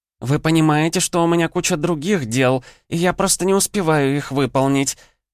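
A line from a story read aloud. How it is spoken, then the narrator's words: Shrill squeal in French. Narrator (Russian): Взвизгнула по-французски Амалия Габриэла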